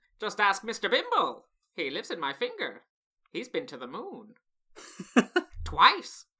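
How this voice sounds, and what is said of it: Fozzie Bear impression. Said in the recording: “I can do Fozzie Bear, but only from Muppet's Treasure Island ... Very, very good.”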